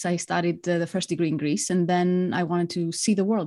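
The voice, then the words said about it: Greek accent. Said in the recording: “You've obviously got an accent there... I'm Greek. I grew up in Greece.”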